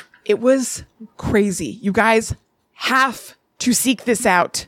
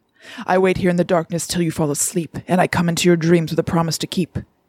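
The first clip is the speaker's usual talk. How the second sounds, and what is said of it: Theatrical, devilish spoken-word voice. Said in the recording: “I'm not saying I did a perfect impression ... The sort of devilish demon ... that same theatrical voice”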